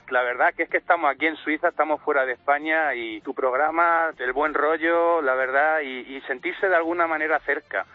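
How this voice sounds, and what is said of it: Murcian Spanish accent. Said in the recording (Spanish): “¿tienes acento de Murcia? ... Sí”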